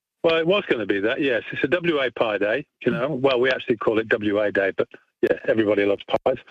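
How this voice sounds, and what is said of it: English accent. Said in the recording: “I detect a bit of an accent as well ... you've got an English accent ... you still sound like the fat controller”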